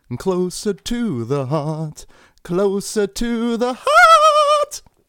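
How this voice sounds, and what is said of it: Sung in a falsetto voice. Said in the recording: “This is what I'm expecting with a little falsetto.”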